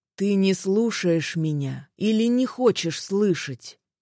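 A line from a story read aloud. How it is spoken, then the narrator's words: Sighing. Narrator (Russian): вздохнул Мороз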